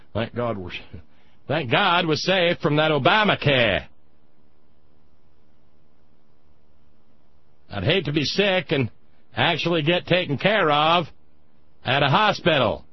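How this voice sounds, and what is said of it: Poor put-on New England accent. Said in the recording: “Terrible accent. ... I'm not used to doing New England accents. ... It's probably more Maine anyway.”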